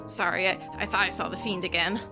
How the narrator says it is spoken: sort of yelps and, like, throws an apple out the window and says

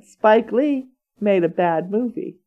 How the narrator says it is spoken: he said

